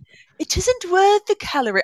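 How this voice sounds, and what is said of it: Mock British accent. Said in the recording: “however you would say that in a British accent”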